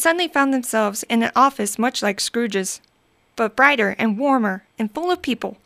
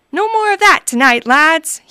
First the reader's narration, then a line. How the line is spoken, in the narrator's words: he boomed